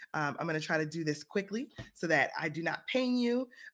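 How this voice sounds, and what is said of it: Scratchy voice from a cold. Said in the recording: “My voice is a little bit scratchy ... my children brought me a cold”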